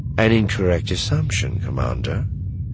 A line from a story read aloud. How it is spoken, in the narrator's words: Thrawn said calmly